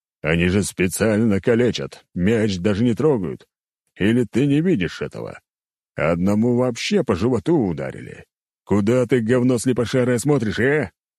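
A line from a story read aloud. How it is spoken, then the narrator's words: Growling. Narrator (Russian): рычал Нургал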